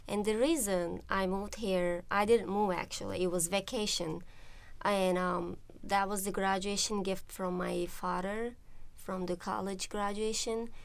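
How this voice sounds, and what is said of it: Turkish accent. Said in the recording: “As you can hear from the accent, I'm not from here. I'm from Turkey”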